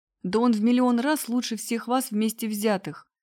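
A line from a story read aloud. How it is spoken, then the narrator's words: Angry shouting. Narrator (Russian): гневно кричала она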